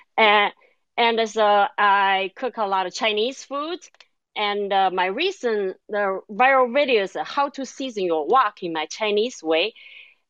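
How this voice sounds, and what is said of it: Chinese-accented English, second-language speaker. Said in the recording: “originally, I'm from China ... this is my second language ... a lot of people like my accent in my cooking video”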